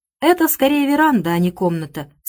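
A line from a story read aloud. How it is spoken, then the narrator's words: Plain. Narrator (Russian): сказала она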